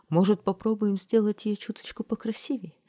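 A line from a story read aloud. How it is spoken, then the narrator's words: Timid suggestion. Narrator (Russian): робко предложила королева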